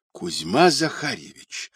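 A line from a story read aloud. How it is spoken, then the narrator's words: Amazed whisper. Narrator (Russian): шепотом позвал изумленный Пашка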